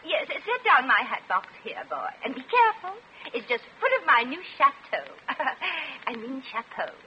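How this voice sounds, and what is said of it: Affected put-on accent. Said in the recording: “Hard to tell what she is. That accent.”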